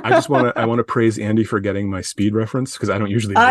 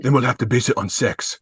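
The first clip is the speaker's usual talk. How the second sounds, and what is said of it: Poor imitation of another person's voice. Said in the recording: “That was a bad Keanu Reeves impression ... That was terrible.”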